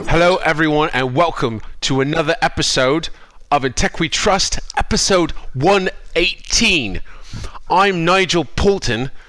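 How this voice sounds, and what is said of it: Fake British accent impression. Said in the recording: “you sound like you're really sick ... typical British accent ... fake British accent to pretend that Nigel was on the show”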